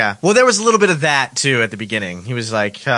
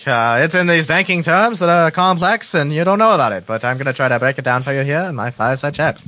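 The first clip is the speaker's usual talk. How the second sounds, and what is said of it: Imitates another person's voice, old-fashioned accent. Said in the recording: “I like your imitation of him. Was he from New Jersey? ... sounds like he has a New Jersey accent.”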